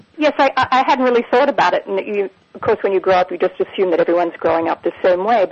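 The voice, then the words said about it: Australian accent. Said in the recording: “you grew up in Australia, right? ... Which if the listeners would explain this accent, and one that I'm very fond of”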